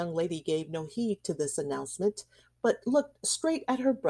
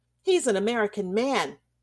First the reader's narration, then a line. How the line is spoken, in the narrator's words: cried Randolph in his little hard voice